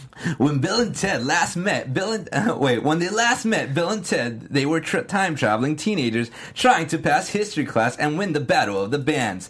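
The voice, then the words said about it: Surfer dude voice. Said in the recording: “they talk like surfer dude ... totally radical ... I'm gonna try to do my best to do a surfer dude impersonation”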